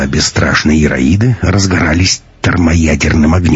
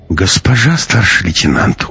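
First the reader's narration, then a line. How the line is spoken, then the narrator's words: Weary sigh. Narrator (Russian): устало вздохнул проверяющий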